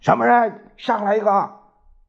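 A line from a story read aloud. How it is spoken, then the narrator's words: Loud shout. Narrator (Chinese): 樊正国大声喊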